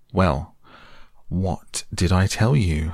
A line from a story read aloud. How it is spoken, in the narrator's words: said the rat very crossly